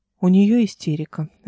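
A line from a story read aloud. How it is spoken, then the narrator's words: Even-toned reply. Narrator (Russian): ровным тоном ответил Борзовиль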